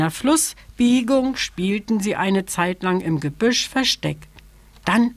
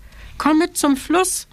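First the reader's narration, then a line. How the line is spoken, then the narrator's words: Called out. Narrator (German): rief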